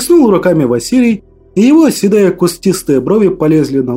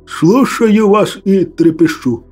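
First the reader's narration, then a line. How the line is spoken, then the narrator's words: Muffled, timid reply. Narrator (Russian): глухо отозвался, несмело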